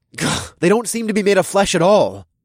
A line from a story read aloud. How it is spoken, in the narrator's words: I scoffed